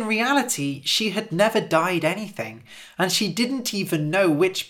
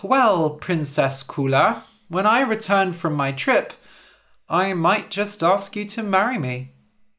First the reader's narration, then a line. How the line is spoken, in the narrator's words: The prince sighed and said